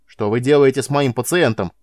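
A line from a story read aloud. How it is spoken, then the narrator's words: Shout. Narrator (Russian): крикнул бледный военврач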